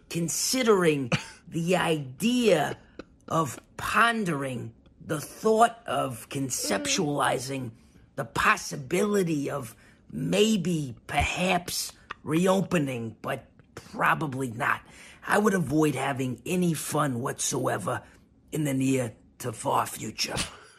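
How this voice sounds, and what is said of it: Impersonation of Fauci. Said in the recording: “That's a great impersonation right there.”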